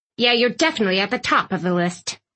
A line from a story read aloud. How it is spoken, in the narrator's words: Aunt Tilly spat